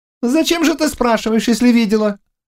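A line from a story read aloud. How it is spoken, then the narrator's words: Sharp question. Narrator (Russian): резко спросил Жэньзян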